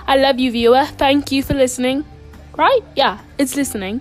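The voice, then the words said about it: Put-on British accent. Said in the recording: “I don't have my usual voice. ... A British accent, I guess you could say”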